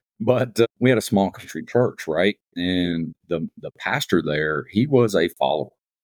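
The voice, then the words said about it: Rural country accent. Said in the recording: “I grew up in a pretty rural area. For those listening, you can figure that out with my accent.”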